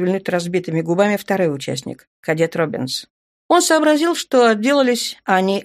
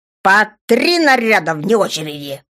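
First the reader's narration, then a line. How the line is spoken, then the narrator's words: Barked. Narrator (Russian): рявкнул начальник академии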